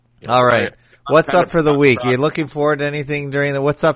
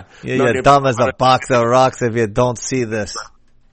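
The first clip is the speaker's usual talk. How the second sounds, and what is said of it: Put-on Jamaican-style accent. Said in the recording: “sort of a Jamaican accent, I think”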